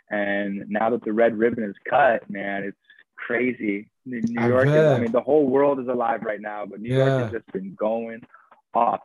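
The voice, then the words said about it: Hoarse, partly lost voice. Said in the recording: “my voice is kind of gone right now”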